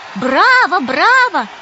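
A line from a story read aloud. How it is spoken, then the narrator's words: Old women shouting, crying. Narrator (Russian): кричали старушки и плакали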